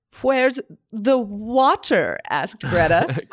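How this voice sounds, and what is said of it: Attempted American accent. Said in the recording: “attempting to do her best American accent”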